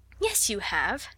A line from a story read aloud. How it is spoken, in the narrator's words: said Sarah cheerfully